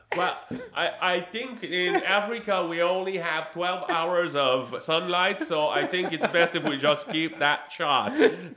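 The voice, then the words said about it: Imitates a Chinese director's voice. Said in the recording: “my imitation of the Chinese director”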